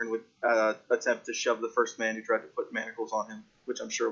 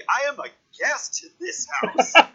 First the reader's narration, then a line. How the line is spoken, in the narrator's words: he cries back indignantly